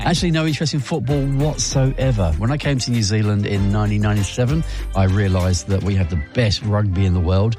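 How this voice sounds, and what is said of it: English accent. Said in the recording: “going by my accent, who would you think? ... England.”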